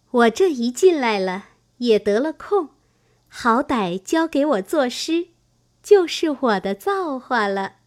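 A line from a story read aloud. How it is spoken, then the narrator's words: Laughing. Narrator (Chinese): 香菱因笑道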